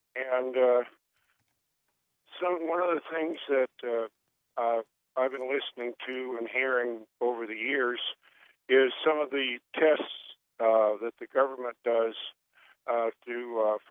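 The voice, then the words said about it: Voice affected by a cold. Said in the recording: “Pardon my voice. I'm a little bit of a cold this morning.”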